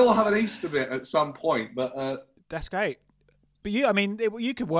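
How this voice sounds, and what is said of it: Usual voice. Nothing is said of it.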